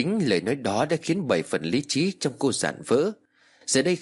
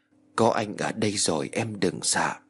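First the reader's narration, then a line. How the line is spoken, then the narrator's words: Happy whisper. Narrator (Vietnamese): hạnh phúc thì thầm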